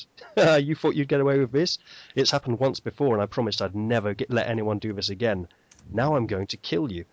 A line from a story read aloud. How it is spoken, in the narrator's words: voice laughing at him, and it says